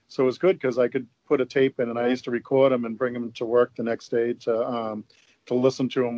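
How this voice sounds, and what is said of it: Natural Boston accent. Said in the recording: “I love ... voice, by the way. It's so distinct. ... He's got that Boston accent. It's really nice. ... It's not a put on at all.”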